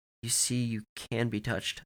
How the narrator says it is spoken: I said again

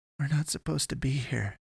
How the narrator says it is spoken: She kept mumbling

